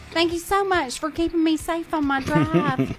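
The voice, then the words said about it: Imitating a friend's accent. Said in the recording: “This is me in her accent. ... I love her accent.”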